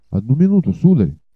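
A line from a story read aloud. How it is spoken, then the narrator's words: Excited exclamation. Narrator (Russian): взволнованно воскликнул Галлер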